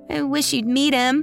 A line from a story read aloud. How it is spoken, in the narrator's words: Kaya pleaded